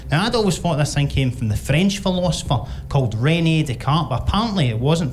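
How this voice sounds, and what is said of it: Scottish accent. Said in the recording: “having a Scottish accent, but I do try and be proud of having a Scottish accent”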